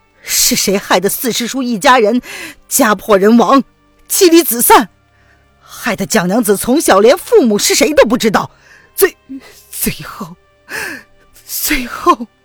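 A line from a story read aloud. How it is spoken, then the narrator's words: Choked sobbing. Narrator (Chinese): 沈轩忍不住的哽咽起来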